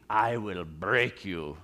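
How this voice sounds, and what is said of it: Ivan Drago Russian accent impression. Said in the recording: “It's my best Russian accent.”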